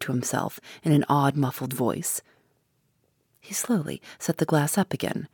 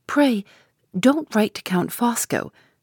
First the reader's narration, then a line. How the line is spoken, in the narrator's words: persisted Lady Glyde, more earnestly than ever